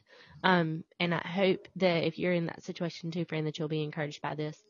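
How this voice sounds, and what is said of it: Unwell-sounding voice. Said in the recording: “please excuse my voice. I have not been feeling well for 2 days”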